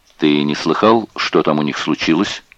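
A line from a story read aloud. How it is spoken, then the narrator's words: Plain. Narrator (Russian): спросил Бергер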